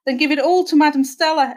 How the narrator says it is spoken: exclaimed Myrtle

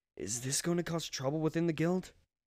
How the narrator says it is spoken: I muttered

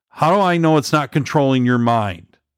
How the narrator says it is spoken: She called out again

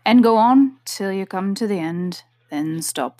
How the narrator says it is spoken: the King said gravely

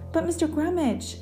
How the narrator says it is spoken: called desperately

